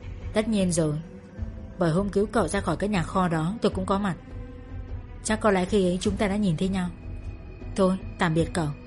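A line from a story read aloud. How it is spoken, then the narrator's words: Soft laugh. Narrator (Vietnamese): Người kia cười khẽ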